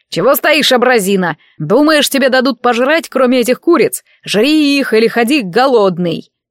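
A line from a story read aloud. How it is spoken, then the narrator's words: Guttural growl. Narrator (Russian): Послышалось утробное рычание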